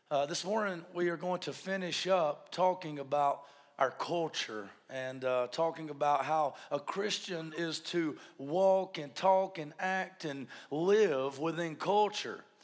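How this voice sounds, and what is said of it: Weak, strained voice. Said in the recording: “Excuse my voice. ... It's been 2 or 3 weeks now, and I don't seem to be able to get my voice back”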